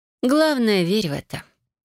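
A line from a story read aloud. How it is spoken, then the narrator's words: Snorting. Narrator (Russian): хмыкнула я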